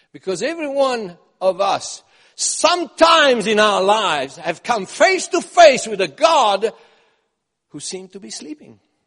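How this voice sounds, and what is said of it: Strong accent, hard to understand. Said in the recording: “my accent is hard to understand”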